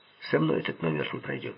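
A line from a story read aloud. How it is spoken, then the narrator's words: Cold. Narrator (Russian): холодно произнес Джо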